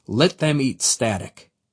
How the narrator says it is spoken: the enemy commander simply sneered

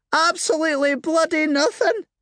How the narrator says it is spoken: she squealed

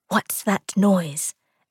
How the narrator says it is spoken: Aaron whispered

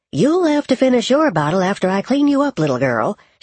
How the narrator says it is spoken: she said with a chuckle

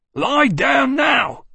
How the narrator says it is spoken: Blomqvist yelled

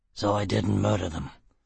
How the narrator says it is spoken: Foyle grunted

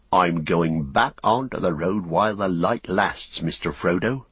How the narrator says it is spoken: he said

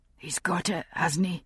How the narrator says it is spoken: he said softly

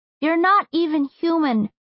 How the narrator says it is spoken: Jazz cried out

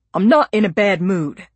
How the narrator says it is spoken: he snapped

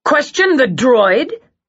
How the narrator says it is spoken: Copley shouted

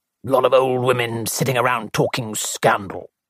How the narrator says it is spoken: grunted Colonel Bantry

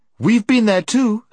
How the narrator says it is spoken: snapped Jill

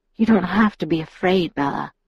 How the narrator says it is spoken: Edward murmured

